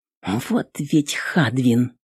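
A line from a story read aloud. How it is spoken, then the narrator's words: Through gritted teeth. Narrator (Russian): процедила сквозь зубы воительница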